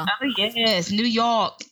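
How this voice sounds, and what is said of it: Poor put-on New York accent. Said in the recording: “my bad attempt at a New York accent.”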